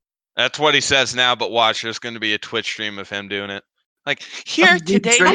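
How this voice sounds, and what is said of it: Usual voice. Nothing is said of it.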